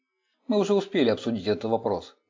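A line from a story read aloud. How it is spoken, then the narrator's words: Grumbled. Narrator (Russian): проворчал Фриц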